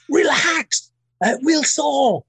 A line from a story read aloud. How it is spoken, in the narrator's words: his way of calming me down was to just shout at me